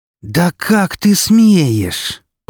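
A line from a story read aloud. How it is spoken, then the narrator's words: Hissing. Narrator (Russian): прошипела она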